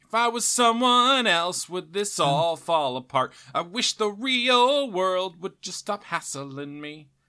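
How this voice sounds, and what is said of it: Imitates a rock singer's voice. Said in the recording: “I was definitely doing my Mark McGrath voice”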